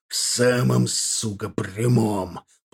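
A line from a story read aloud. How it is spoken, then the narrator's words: Through gritted teeth. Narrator (Russian): процедил Аркар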